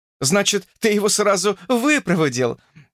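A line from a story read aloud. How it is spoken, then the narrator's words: Laughing. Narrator (Russian): засмеялась она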